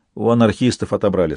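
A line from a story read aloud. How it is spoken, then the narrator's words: Plain. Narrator (Russian): сказал Мигель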